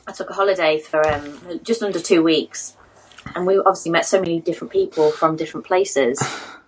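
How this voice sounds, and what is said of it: British accent. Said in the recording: “I like your British accent”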